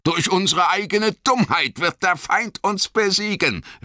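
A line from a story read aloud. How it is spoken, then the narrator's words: Called out. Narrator (German): rief Boromir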